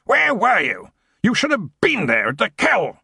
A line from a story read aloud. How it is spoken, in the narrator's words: he roared